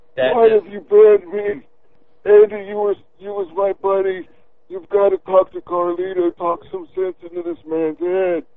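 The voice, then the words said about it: Put-on mock character voice. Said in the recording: “in my mock voice. ... keep the voice up”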